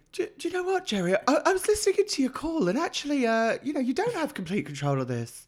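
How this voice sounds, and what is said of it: Imitates another person's voice. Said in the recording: “That was quite a good Molly impression”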